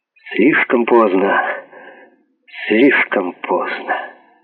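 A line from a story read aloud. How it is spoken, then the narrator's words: Trembling whisper. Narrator (Russian): инспектор дрогнувшим голосом прошептал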